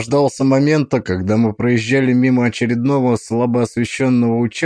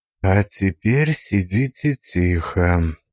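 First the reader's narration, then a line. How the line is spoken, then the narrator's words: Whisper. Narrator (Russian): прошептал я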